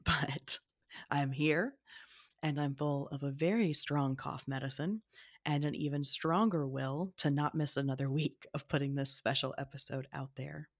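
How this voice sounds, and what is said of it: Rough, hoarse voice. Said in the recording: “my voice is a little rough at the moment”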